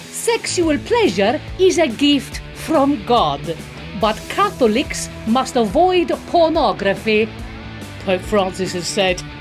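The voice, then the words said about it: Put-on Italian accent. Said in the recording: “I'm gonna read it in an Italian accent just to be even more offensive.”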